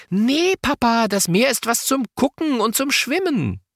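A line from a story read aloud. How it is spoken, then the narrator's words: Called out. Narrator (German): Lotta ruft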